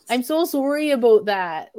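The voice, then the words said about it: Canadian-sounding accent imitation. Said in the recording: “it's Canadian sounding, man.”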